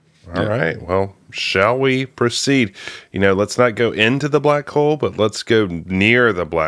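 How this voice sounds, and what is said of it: Usual voice. Nothing is said of it.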